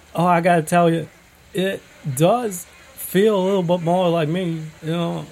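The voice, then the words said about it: Put-on Texas accent, confident. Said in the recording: “the Texas accent ... it's got this nice, confident ring to it”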